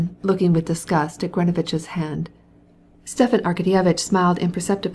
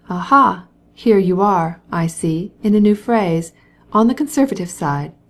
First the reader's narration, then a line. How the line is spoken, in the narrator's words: said Stepan Arkadyevitch